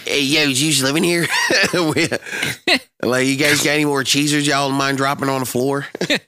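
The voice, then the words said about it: Delco accent, mouse character. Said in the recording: “do it in a Delco accent.”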